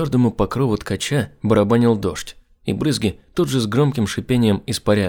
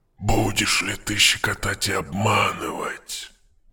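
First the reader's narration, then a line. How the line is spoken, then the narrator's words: Muttering. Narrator (Russian): Бормотал он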